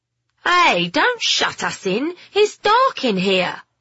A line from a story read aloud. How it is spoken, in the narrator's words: Alfie shouted